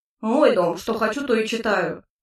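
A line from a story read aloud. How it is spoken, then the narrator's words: Gruff tone. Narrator (Russian): все тем же грубоватым тоном произнес Хааск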